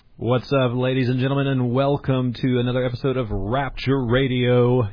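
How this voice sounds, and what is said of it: Practiced radio announcer voice. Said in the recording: “my radio voice? I've been practicing it ... You've got a great voice ... You've got a radio voice.”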